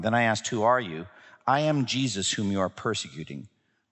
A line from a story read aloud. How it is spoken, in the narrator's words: the Lord replied